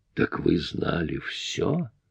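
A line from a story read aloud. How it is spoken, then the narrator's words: Hiss. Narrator (Russian): прошипела она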